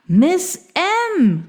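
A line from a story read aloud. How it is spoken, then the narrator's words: Calling out. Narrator (German): rief er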